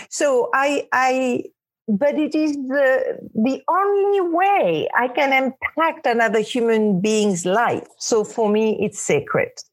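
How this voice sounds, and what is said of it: Speaks with a noticeable non-native accent. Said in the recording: “i have to be responsible for my accent sometimes i I get away with murder with my accent because people find it cute, but sometimes ... my words do not get understood”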